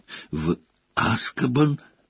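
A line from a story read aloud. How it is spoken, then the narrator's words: Hoarse question. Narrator (Russian): хрипло спросил Хагрид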